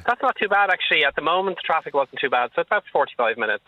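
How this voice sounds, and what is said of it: Irish Dublin accent. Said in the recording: “As you can probably hear, I'm actually not a native Kildare man. I'm actually from Dublin”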